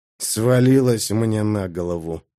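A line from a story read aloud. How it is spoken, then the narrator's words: Displeased grumble. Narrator (Russian): недовольно буркнул Джимис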